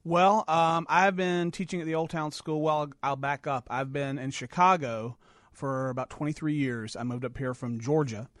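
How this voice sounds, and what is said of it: Southern Georgia accent. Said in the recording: “you still got the accent.”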